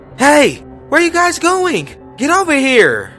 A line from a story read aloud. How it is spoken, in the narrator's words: a lady with blonde hair came out of the bathroom shouting